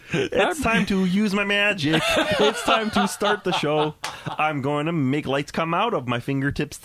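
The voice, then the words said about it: Kermit the Frog character voice. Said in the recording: “I'm going to talk like Kermit.”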